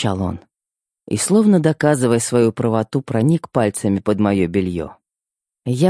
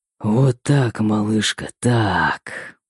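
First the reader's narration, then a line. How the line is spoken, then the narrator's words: Hoarse unrecognizable whisper. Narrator (Russian): хриплый шепот, изменившийся до неузнаваемости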